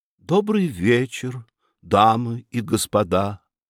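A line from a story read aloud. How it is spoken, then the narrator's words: Angelic little voice. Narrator (Russian): произнесла ангельским голоском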